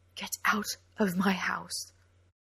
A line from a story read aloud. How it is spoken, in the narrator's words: Mustering all her courage, she whispered through numb lips